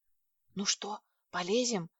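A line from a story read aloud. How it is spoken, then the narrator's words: Whispered question. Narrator (Russian): спросила я почему-то шепотом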